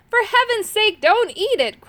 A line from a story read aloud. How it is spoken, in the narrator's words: cried Urk